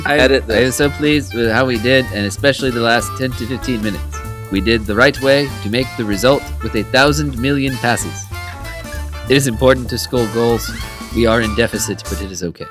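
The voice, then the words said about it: Put-on foreign accent, broken English. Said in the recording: “The broken English just makes this better ... It'd be so better with an accent ... That was so much better.”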